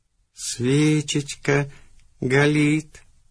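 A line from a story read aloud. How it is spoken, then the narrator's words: Rapturous drawn-out speech. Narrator (Russian): с упоением протянул ты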